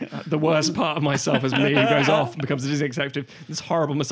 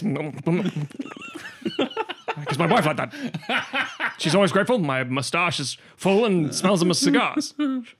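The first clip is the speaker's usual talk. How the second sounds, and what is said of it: Mock Disney executive character voice. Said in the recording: “You're doing an impression of yourself as a Disney executive.”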